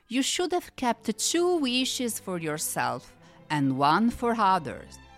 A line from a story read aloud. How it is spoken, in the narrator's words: the genius explained kindly